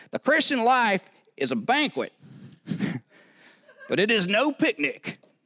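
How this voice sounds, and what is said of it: Put-on strong Southern US accent. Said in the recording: “He had this really strong southern accent ... I'm going to say it in this southern accent ... I do that well because I'm from the South”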